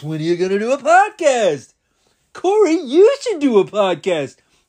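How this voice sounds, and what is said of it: Imitates podcast fans' voices. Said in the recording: “That's my impersonation of you guys.”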